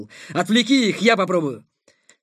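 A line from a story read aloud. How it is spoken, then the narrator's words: Shout. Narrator (Russian): Сухов крикнул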